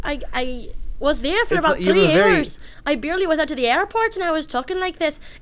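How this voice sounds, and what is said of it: Thick accent, no Wisconsin trace. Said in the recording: “It's very thick. It's like not, I don't even hear any Wisconsin in there at all.”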